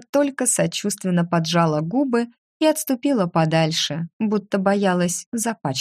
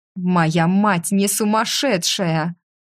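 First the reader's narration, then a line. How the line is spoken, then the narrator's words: Growl. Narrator (Russian): зарычала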